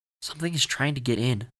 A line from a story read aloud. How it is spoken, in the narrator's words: Owen said